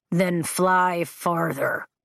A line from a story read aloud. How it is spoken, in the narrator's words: Taryn growls